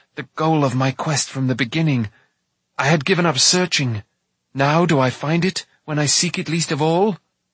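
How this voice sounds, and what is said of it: Stifled, choked voice. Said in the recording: “in a stifled voice.”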